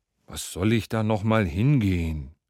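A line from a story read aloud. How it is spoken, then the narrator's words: Man groaning. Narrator (German): stöhnte der Mann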